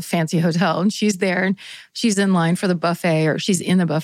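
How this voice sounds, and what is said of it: Usual voice. Nothing is said of it.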